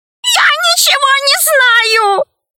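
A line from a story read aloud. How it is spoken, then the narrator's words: Shouting. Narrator (Russian): кричал он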